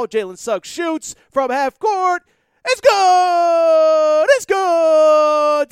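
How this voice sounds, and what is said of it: Sportscaster play-by-play impression. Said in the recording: “my Jim Nantz impression ... I don't know if I did or not”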